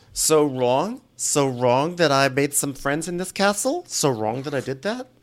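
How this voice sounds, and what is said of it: Impression of a Jewish woman. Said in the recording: “I'm Jewish, for anyone who thinks I am being offensive. I'm just doing an impersonation of like every important lady in my life.”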